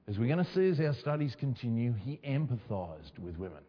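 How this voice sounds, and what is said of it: Speaker's own noticeable accent. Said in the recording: “Does everyone understand my accent?”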